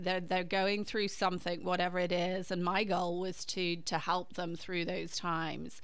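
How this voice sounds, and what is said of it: British accent. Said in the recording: “my background in the UK, which is where I'm from, your listeners may get that slightly different accent than maybe they're used to hearing”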